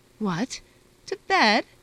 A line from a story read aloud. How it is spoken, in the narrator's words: cried Pelagia Ivanovna